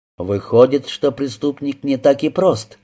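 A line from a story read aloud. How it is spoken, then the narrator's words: Plain. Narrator (Russian): спросил инспектор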